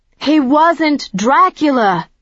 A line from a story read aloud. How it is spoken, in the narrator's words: I said as clearly and loudly as I could